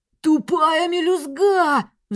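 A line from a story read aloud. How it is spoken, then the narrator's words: Howling in pain. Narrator (Russian): взвыл он, хватаясь за колено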